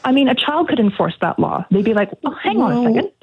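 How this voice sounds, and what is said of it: North American accent. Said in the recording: “you've got a North American accent.”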